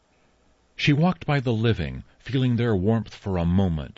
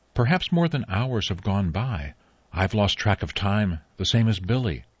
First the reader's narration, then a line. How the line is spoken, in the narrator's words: she whispered